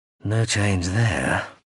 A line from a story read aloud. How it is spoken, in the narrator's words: he sighed